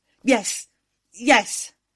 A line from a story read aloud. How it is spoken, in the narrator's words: I managed to gasp